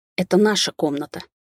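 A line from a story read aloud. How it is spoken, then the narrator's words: Through clenched teeth. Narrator (Russian): процедила я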